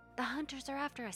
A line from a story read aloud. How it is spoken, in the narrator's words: he panted